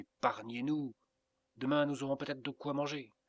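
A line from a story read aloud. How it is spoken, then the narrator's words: Exclaimed. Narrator (French): s'écria Inès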